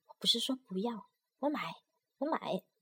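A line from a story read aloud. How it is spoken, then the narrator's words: Quiet. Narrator (Chinese): 改口小声说道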